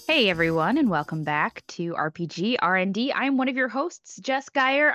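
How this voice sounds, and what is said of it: Slightly tired, lackadaisical voice. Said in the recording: “I sound a little tired ... my lackadaisicalness”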